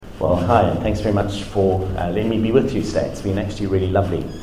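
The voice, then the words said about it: South African Durban accent. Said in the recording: “If you're wondering where the accent is from, I grew up in South Africa ... not just a South African accent, but it's more precisely a Durban accent as well ... you spent a number of years in New Zealand as well”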